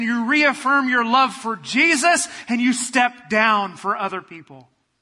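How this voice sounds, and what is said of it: Yelling, loud delivery. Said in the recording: “I don't know why I'm yelling.”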